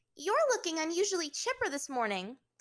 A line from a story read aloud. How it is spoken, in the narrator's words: Ty Lee chirped